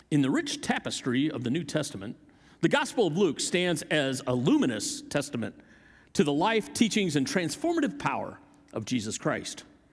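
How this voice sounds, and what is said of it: Put-on radio announcer voice. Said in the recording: “I'm going to use my best radio voice for this.”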